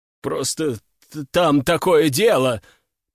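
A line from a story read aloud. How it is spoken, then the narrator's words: Mumbling. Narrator (Russian): промямлил командующий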